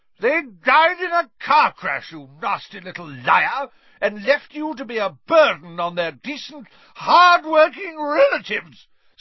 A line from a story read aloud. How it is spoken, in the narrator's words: screamed Aunt Marge, swelling with fury